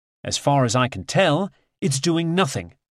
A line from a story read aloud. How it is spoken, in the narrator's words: Assange says